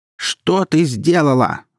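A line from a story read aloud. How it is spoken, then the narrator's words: Mother yelling. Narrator (Russian): заорала мать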